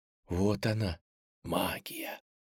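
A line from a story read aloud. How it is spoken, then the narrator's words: Whisper. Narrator (Russian): прошептала Аленка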